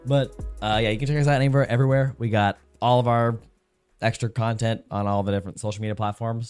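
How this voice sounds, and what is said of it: Voice partly gone, sick. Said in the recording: “my voice is a little gone. I've been sick for the last uh, four or five days.”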